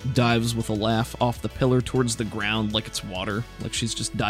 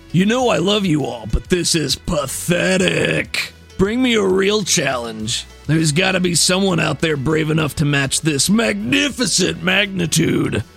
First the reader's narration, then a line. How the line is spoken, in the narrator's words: she says, her voice booming out